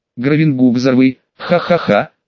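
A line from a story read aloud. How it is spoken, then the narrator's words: Speaking then laughing. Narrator (Russian): что-то сказал и засмеялся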